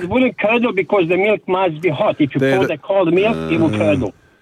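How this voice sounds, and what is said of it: Bosnian-accented English. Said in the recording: “where's your accent from, mate?... I'm born in Bosnia, but I'm here in Australia since 1986”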